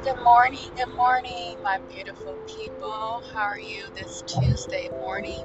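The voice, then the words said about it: Tired, sleepy-sounding voice. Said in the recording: “today I am a little tired. If you guys do not hear it in my voice, ... I am tired in a sense of like sleepy.”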